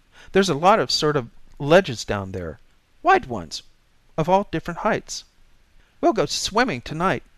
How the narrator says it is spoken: she said excitedly

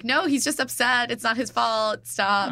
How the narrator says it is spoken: Jenna starts yelling after him

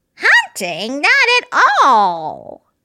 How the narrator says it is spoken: Moosebird exclaimed

